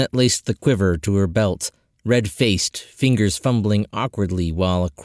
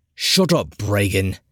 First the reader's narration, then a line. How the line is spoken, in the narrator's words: Eris snapped